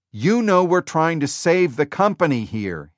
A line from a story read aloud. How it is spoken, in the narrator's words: he shouted